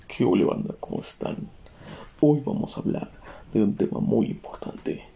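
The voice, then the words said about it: Serious radio-announcer voice. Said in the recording (Spanish): “Quería hacer una voz seria, porque digo, suena, chida esa voz ... no es fluida esa voz ... si fuera este pedo un programa de radio. Estaría chido hacer esa voz. ¿No? Como el doble tema matutino.”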